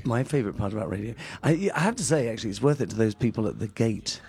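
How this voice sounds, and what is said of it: Put-on British accent. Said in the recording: “got a British accent.”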